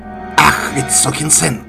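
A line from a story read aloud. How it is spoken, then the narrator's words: Roaring. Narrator (Russian): взревел граф Серапион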